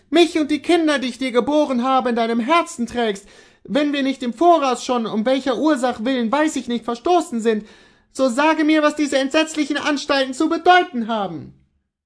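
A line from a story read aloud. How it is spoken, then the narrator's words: Woman calling out. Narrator (German): rief sie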